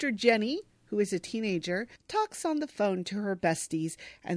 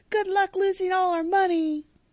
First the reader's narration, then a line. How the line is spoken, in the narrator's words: Jenny yells after her